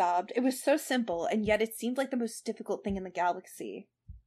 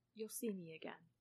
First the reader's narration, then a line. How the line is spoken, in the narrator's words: he murmured